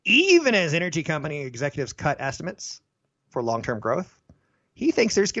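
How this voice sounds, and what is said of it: Usual voice. Nothing is said of it.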